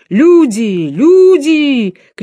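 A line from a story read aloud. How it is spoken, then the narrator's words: Shouting. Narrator (Russian): кричал причетник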